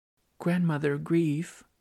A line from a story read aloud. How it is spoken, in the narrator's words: I pleaded